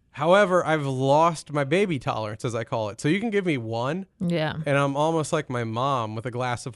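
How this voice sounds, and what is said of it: Usual voice. Nothing is said of it.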